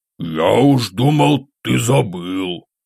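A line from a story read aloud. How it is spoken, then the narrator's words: Grumble while eating. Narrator (Russian): пробурчал он где-то на середине второго брикета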